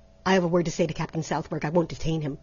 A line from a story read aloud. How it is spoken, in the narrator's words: said Trent hastily